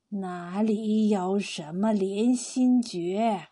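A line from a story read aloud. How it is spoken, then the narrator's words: Slow, innocent smiling old man. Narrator (Chinese): 他满是皱纹的脸上突然露出天真的笑容，缓缓的说道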